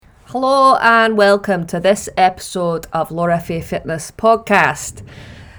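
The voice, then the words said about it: Put-on Scottish accent. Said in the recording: “I just thought I'd mix it up from the standard Burnley accent, and anyone who knows me knows I love a Scottish accent,”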